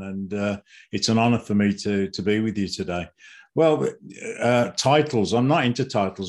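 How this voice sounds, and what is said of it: British accent. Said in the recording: “that British accent”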